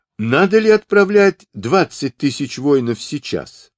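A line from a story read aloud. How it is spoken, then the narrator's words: Plain. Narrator (Russian): спросил Чагадай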